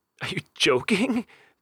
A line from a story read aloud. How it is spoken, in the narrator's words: James sputtered to Mom, deeply afraid that she wasn't